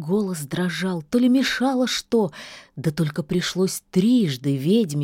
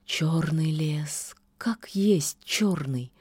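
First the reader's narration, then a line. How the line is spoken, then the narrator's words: Girl sighing. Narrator (Russian): вздохнула девица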